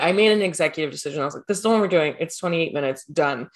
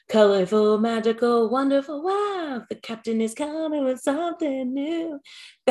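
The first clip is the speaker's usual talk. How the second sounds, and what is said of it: Bad impression of a cheesy theme song. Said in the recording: “That's really bad. That's a really bad impression of it.”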